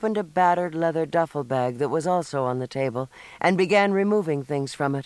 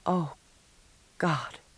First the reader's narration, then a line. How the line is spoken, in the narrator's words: she whispered